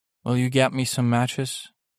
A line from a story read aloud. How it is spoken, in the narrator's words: said the visitor